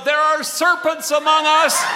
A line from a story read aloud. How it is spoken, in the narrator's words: It was the widow McCoy who stood up and called out